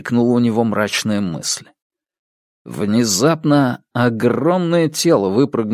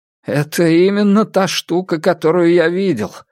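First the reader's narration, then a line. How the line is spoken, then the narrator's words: Exclaiming. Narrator (Russian): воскликнул врач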